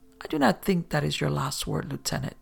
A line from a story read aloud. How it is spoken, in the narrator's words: the Mandarin purred